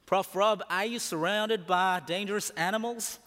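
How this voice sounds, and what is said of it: Put-on American accent. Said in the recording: “sorry if I put the accent wrong.”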